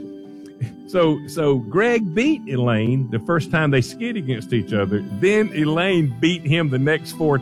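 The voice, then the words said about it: Speaker's own noticeable accent. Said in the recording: “I know that I've got an accent”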